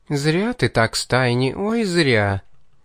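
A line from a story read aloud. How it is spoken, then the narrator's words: Drawled with open menace. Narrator (Russian): Уже с откровенной угрозой протянула демоница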